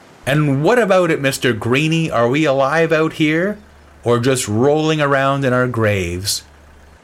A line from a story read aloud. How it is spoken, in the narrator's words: I shouted out to the sea